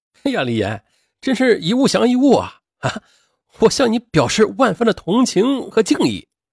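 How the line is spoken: Mocking coworkers. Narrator (Chinese): 同事们都笑话着说

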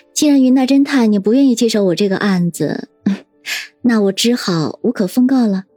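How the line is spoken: Giggling. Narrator (Chinese): 叶心雨却嘻嘻笑道

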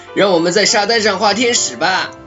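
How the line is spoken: Loud shout. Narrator (Chinese): 雪宝大声喊道

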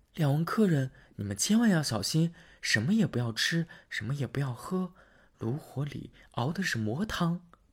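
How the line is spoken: Whispered warning. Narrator (Chinese): 姑娘对着两个人小声说

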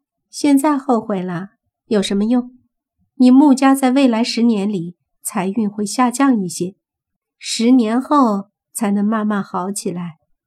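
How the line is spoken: Sneering. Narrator (Chinese): 慕云溪冷笑说道

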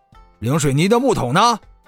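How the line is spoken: Hurried explaining. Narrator (Chinese): 葛老二赶紧解释道

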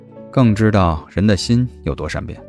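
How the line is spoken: Calm, indifferent. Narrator (Chinese): 谢景亭淡淡接话

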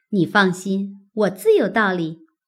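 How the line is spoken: Laughing. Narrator (Chinese): 玉串笑道

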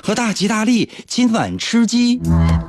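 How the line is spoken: Gleeful loud shout. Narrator (Chinese): 思聪的儿子一开始感觉到非常的恐惧，但后来他乐得不得了，他大声喊着

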